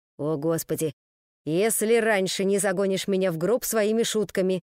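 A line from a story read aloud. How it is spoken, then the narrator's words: Grumbled, groom. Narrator (Russian): проворчал жених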